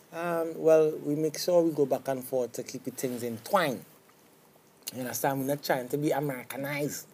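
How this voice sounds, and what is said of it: Strong Trinidadian accent. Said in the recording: “you have a strong Trinidad accent ... your accent's stronger”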